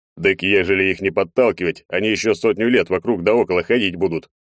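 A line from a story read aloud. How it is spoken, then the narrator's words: Unembarrassed snort. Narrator (Russian): хмыкнул, ничуть не смутившись, Егор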